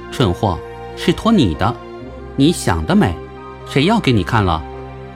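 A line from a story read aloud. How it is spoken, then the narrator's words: Coquettish, amused laughter. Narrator (Chinese): 接着娇笑出声…乐道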